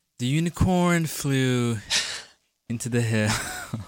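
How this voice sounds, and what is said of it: Imitates another person's voice. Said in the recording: “I can do an impression. ... This is not what she's like at all.”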